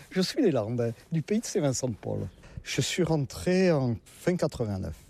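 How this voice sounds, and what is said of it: Southern French regional accent. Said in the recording (French): “comme vous l'entendez, je ne suis pas de la région ... Avec mon accent, je ne suis pas du nord de la Loire”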